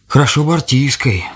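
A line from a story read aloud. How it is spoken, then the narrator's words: Old man sighing. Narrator (Russian): вздохнул дед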